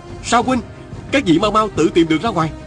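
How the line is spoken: Shouting. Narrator (Vietnamese): Viên Cừ Chi la lên

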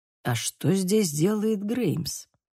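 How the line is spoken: Quiet question. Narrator (Russian): тихо спросил Фагус

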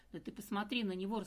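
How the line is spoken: Loud laughter. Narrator (Russian): расхохоталась Дина

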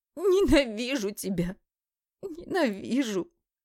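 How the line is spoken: Tearful anguished cry. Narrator (Russian): Сквозь слезы вторят, разрывая душу в клочья

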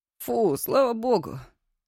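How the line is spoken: Relieved exhale. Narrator (Russian): облегченно выдохнул Мишка

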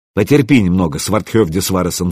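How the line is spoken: Soft. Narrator (Russian): сказал мягко

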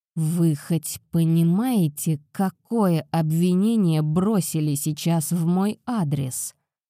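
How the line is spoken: Furious dragon through teeth. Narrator (Russian): процедил взбешенный дракон

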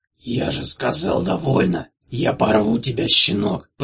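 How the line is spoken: Growling. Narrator (Russian): прорычал Трынк

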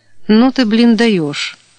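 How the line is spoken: Laughing short. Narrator (Russian): хохотнул тот

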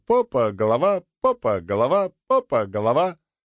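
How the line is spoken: Gurgling, giggling cheerful shout. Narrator (Russian): Булькая и хихикая, она весело кричала

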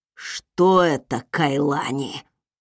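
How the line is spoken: Growling. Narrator (Russian): прорычал он

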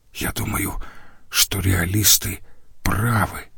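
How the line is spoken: Male whisper. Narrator (Russian): прошептал он

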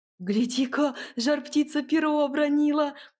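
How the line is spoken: Boy crying out. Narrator (Russian): скрикнул мальчик

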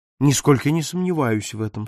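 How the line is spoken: Calm. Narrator (Russian): спокойно ответил сыщик

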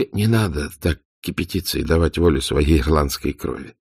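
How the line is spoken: Calm interruption. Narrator (Russian): спокойно перебил он ее

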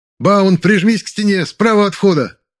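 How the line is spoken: Shouted. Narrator (Russian): выкрикнул я

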